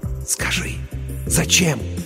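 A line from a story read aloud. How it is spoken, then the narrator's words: Trembling excited whisper. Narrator (Russian): Дрожа от возбуждения, рулевой прошептал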